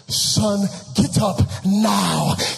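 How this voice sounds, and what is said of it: Put-on Nigerian accent. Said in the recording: “in his Nigerian voice”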